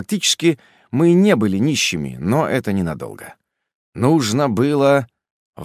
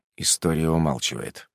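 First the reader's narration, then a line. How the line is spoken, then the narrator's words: Muttering. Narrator (Russian): пробормотал я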